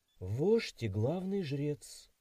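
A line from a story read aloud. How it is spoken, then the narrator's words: Confused young woman. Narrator (Russian): растерянно ответила девушка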